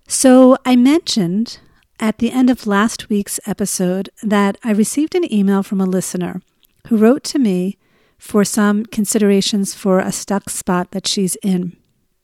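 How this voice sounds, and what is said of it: Voice sounds a little off. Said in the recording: “I am getting over a little cold, so if my voice sounds a little funny”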